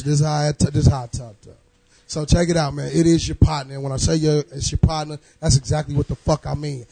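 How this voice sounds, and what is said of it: Hoarse voice. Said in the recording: “I'm a little hoarse from last night, y'all ... I'm a little hoarse.”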